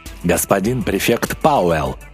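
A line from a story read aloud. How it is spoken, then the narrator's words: Official tone. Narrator (Russian): произнес он официальным тоном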